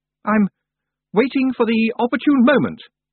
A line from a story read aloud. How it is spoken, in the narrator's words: said Roland haughtily